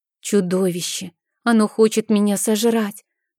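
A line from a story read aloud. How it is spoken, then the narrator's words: Trembling frightened voice. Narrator (Russian): дрогнувшим голосом произнес Мишель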